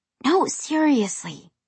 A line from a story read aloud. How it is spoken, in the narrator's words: she whispered